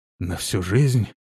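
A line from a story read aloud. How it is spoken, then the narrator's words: Crushed, dejected. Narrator (Russian): уточнил Прокс убитым голосом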